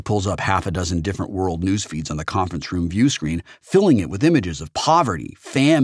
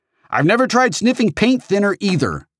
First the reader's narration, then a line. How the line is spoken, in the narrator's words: Samantha snaps back